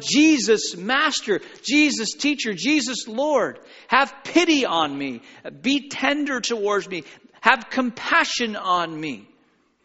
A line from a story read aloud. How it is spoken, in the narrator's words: are shouting